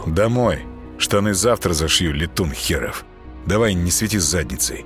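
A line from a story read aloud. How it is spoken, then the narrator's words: Stern. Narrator (Russian): Костя строго сказал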